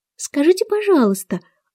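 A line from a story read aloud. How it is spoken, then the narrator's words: Timid. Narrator (Russian): робко спросила Алиса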